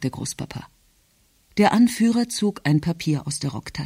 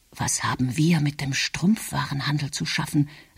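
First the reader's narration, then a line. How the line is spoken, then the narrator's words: Whisper. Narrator (German): sagte Emil flüsternd zu Markwald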